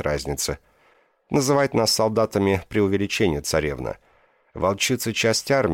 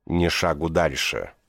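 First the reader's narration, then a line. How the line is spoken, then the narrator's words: Female growl. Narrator (Russian): прорычала она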